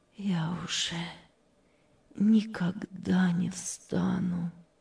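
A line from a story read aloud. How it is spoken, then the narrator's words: Sad. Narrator (Russian): печально сказала Мария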